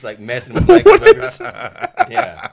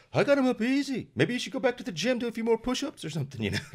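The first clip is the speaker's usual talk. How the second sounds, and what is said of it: Badly done put-on accent. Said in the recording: “What is that accent? ... I don't know. It's terrible. I can't go into accents.”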